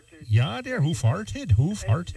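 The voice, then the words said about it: Put-on Upper Peninsula Michigan accent. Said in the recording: “You got to say that with that UP accent.”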